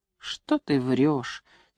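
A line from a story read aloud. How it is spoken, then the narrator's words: Quiet but angry. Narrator (Russian): тихо, но сердито сказал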